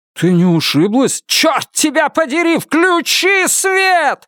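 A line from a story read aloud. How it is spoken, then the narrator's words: Screaming. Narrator (Russian): завопила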